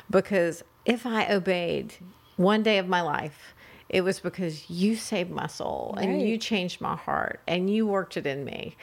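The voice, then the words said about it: Teary, emotional voice. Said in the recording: “I'm getting all teary”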